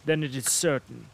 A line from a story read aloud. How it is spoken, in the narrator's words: said the prince